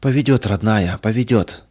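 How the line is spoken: Breathed out, mother. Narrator (Russian): выдохнула мать

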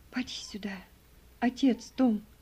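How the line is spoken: Whispered. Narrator (Russian): прошептала она

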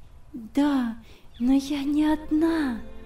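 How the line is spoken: Smiling whisper. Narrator (Russian): прошептала она, улыбаясь

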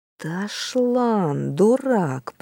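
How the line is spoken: Whisper. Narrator (Russian): прошептал Рижда

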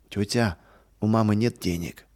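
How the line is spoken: Sad. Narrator (Russian): печально сказал

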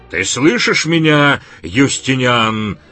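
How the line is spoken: Yelled. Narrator (Russian): заорал Илья

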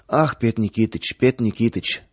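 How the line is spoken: Rapid lisping patter. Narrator (Russian): скороговоркой, слегка пришептывая, затараторил торговец

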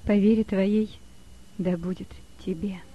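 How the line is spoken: Sad. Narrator (Russian): сказала она, грустно смотря на него

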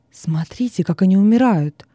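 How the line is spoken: Frightened whisper. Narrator (Russian): Вестин, испуганно шептал

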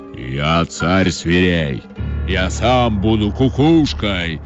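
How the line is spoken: Menacing roar, lion. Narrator (Russian): грозно зарычал лев

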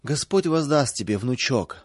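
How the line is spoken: Old woman sobbing. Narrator (Russian): всхлипывала бабушка

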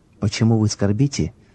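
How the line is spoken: Gentle, sympathetic question. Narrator (Russian): спросил он мягким, участливым голосом

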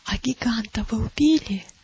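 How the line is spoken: Whispered question. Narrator (Russian): шепотом спросила милость у Матфея

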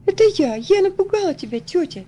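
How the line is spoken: Laughing girl. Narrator (Russian): засмеялась девочка

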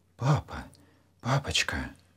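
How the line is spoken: Anxious whisper. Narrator (Russian): тревожно зашептал Саша

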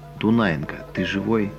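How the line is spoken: Quiet question. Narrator (Russian): тихо спрашивает

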